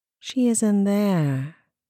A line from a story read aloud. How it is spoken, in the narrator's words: Rin replied, in a dull, vacant voice as she fought the urge to giggle